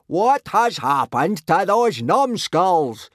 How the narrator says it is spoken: roared Gobber, beginning to feel a little uneasy

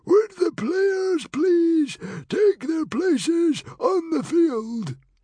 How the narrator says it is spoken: he wheezed

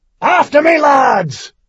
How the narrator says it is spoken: he bellowed

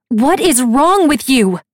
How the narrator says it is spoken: She shouts

